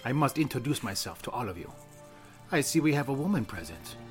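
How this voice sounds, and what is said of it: Put-on Italian accent. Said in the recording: “That's an Italian accent, isn't it? ... Yes, I have a fluid accent.”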